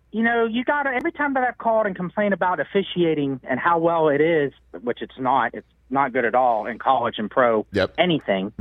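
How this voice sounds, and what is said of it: Thick Pittsburgh accent. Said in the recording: “is a Pittsburgh guy. He's got the thick accent”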